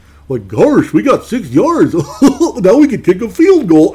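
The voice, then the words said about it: Goofy cartoon character voice. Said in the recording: “I just started doing the goofy voice.”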